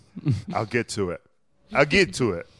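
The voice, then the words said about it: Vague Argentine-European put-on accent. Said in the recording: “I don't know what accent that was. ... Somewhere between Argentina ... and all of Europe.”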